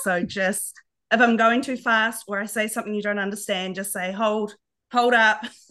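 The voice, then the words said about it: Nasal New Zealand accent. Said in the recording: “a New Zealand accent ... your beautiful accent ... my nasally Kiwi voice”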